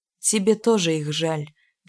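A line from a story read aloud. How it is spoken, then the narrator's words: Sigh. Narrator (Russian): вздохнул Обухов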